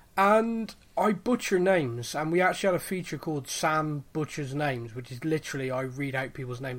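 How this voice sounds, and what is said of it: Bristolian English accent. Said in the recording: “I speak with a Bristolian accent, which is kind of like a farmer had a baby with a pirate”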